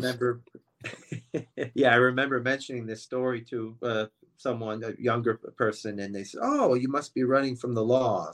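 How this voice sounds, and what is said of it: Slight foreign accent. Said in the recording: “you have a little bit of an accent”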